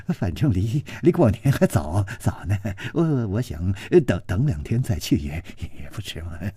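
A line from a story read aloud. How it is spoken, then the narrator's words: Ingratiating smiling tone. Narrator (Chinese): 那个少年陪着笑说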